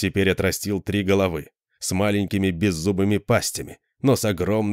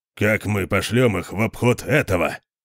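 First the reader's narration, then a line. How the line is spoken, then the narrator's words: Grumbling. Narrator (Russian): проворчал Конан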